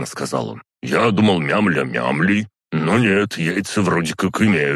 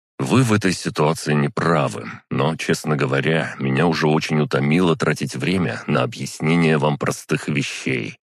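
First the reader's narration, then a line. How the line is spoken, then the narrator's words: Weary sigh. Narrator (Russian): вздохнул я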